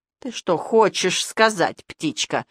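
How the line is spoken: Angry hiss. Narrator (Russian): злобно прошипел Кругломордый

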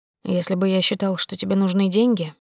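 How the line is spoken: Quiet. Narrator (Russian): сказал Макар тихо

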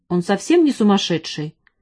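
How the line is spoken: Angry. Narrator (Russian): сердито сказал он

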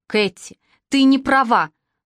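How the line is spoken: Fervent exclamation. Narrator (Russian): с жаром воскликнул он

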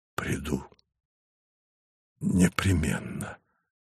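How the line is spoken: Breathed out. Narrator (Russian): выдохнул Савва

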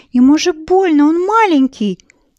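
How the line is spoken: Shouting, crying loudly. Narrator (Russian): закричала Марина и заплакала от обиды так громко

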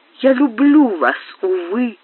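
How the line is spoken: Desperate exclamation. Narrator (Russian): воскликнула она с отчаянием

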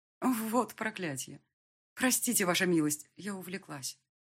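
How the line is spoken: Dejected voice. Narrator (Russian): признала упавшим голосом

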